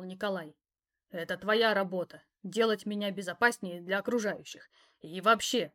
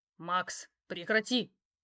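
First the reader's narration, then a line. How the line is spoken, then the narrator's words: Growled. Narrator (Russian): рыкнуло мое начальство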